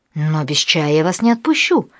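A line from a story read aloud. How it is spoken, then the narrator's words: Exclaimed. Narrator (Russian): воскликнула Амалия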